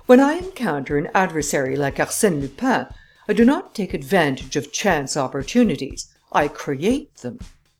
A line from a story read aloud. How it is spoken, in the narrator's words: said the Englishman haughtily